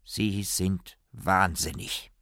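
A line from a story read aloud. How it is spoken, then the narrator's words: Slow, weighty. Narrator (German): nach langem Schweigen sagte er langsam und gewichtig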